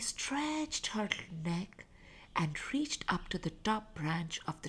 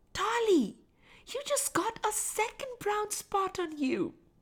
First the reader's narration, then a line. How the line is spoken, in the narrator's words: her brother Sam screamed